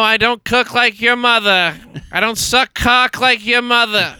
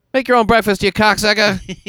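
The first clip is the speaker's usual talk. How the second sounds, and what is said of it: Put-on Boston accent, slipping. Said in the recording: “Someone told me in Boston, people really use words like that ... the accent does break down. Well, that's Buffalo, New York.”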